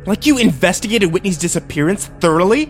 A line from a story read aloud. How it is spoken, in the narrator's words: I spat